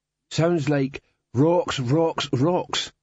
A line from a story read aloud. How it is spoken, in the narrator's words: said Cliff